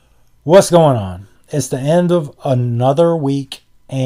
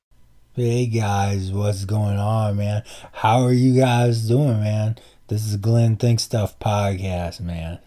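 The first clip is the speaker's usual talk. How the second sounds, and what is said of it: Laid-back hippie voice. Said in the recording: “in my hippie voice, in my Tama Chong voice.”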